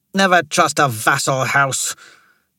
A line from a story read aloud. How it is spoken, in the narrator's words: Jamari snarled